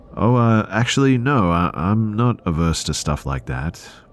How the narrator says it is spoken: said

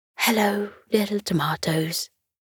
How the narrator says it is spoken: he said softly

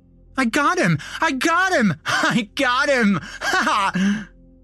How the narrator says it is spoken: screamed

